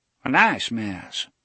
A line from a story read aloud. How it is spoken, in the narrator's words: Avery repeated, and blew liquor-scented wind at them in a deep sigh